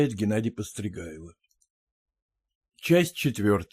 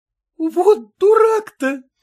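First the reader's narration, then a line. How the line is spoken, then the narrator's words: Forced laughing shout. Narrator (Russian): кричала она, продолжая хохотать, хотя в смехе ее звучало что-то неестественное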